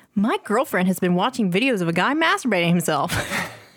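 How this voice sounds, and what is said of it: Reads in an announcer voice. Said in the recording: “Why are you reading this in your, like, announcer voice?”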